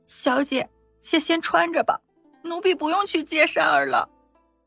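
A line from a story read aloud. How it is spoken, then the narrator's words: Choked tearful voice. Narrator (Chinese): 听到山儿的名字，碧儿红着眼圈 哽咽的说道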